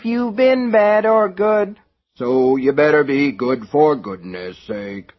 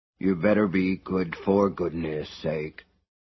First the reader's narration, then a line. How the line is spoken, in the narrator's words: he admonished under his breath